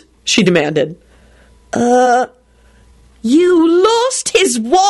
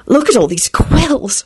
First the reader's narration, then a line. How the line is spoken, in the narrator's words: she whispered delightedly